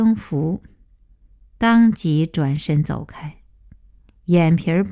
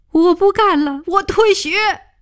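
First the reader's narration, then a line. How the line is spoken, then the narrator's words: Loud shout. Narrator (Chinese): 王建凡一声大叫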